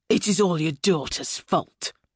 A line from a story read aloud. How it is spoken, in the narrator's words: Nigel snarling at her mother